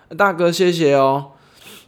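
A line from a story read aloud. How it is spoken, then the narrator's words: Loud. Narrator (Chinese): 跟大哥很大声的说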